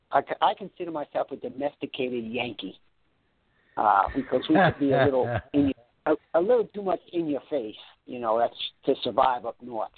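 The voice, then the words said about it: Slight New York accent. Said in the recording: “I still have, they tell me, a little New York accent.”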